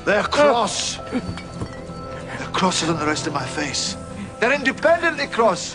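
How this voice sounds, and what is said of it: Put-on Scottish accent. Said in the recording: “I am Scottish. I've gone Scottish... You are definitely Scott, sir. I hear it in your voice.”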